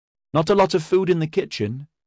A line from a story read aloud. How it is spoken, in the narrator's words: Salrana called out